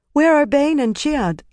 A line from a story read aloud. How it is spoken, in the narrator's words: Lasile asked anxiously